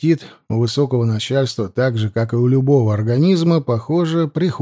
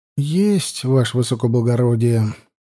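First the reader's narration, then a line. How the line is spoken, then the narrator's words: Wistful sigh. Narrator (Russian): вздохнул с грустинкой Алексей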